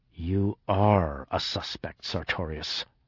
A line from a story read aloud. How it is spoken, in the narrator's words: said through clenched teeth